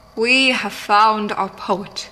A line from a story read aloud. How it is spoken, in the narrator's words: proclaimed, his years of public speaking paying off as his voice boomed and fell, rang confident and true